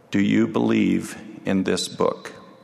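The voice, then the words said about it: Quiet voice. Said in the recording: “in a quiet voice,”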